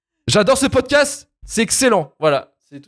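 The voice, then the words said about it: Put-on accent, loud emphatic reading. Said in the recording (French): “Pourquoi tu prends cet accent ... On aurait dit que c'était écrit en caps lock”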